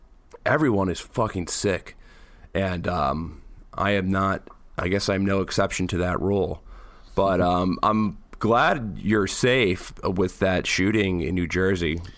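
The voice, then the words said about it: Slightly raspy, sick-sounding voice. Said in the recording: “everyone's got the flu ... my voice sounds a little raspy”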